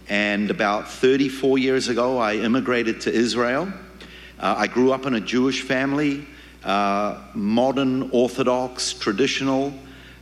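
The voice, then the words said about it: New Zealand accent. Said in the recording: “originally I'm from New Zealand. You can tell my accent”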